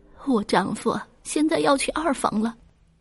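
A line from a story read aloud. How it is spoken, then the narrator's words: Crying woman. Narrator (Chinese): 大女儿哭着说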